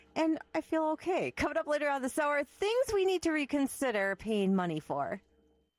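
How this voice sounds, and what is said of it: Off, sore-throated voice. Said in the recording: “my voice is very off today, and I have been battling a little bit of a sore throat ... my voice just doesn't do what I want it to do at the moment. It's a little bit of a sore throat.”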